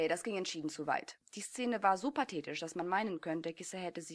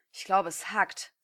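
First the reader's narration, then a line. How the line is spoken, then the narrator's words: Hissing. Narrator (German): zischte Daiki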